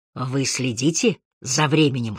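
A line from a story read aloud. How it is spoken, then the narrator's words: Whispered. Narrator (Russian): шепнул он Харри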